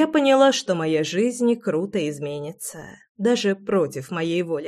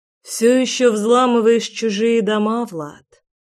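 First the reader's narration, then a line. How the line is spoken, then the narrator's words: Sigh. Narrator (Russian): Вздохнула я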